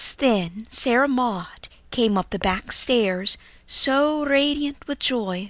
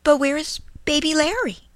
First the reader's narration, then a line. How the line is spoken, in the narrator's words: she cried